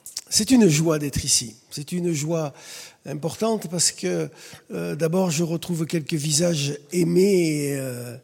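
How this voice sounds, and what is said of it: Slight southern French accent. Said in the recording (French): “si vous entendez bien, il y a un petit accent qui de temps en temps ressurgit... je suis un Cévenol... retrouver le Sud”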